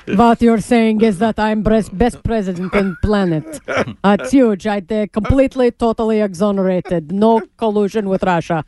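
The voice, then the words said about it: Trump impression with Russian accent. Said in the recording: “do a Trump Russian accent ... Mr. President, your Russian accent is showing.”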